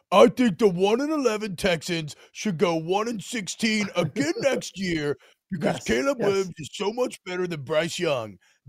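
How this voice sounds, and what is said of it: Imitates another person's voice. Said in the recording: “I'm doing my impression of you.”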